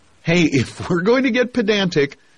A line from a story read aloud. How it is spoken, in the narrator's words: Garfield said, laughing